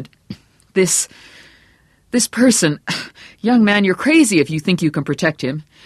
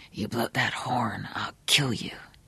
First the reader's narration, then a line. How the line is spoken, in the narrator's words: the voice whispered